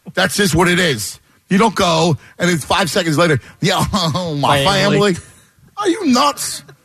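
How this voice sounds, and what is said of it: Muddy Philadelphia accent. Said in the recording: “I'm sure you could put me in Sydney, and I'll still have a muddy Philadelphia patois”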